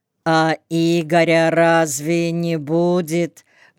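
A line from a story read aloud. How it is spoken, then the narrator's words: Drawling young woman. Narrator (Russian): протянула одна из девиц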